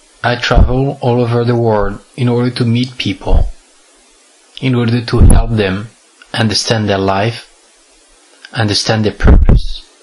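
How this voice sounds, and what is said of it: French accent. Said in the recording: “I have a French accent. That's because I'm French.”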